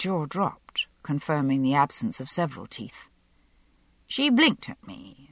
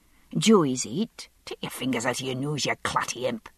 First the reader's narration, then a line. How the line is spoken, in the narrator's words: she hissed